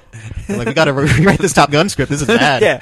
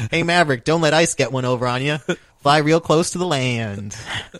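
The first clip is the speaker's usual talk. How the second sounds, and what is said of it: Imitates another person's voice. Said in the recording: “I gotta do my Tom Cruise.”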